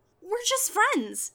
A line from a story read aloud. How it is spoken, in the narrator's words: she squeaked